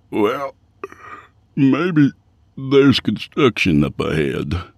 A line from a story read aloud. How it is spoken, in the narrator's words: Yancey yawned